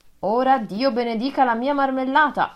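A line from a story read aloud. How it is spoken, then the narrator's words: Little tailor exclaiming. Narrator (Italian): esclamò il piccolo sarto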